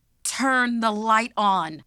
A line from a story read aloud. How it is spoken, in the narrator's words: yelled